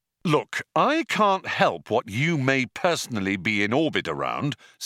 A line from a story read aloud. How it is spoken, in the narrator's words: said Ford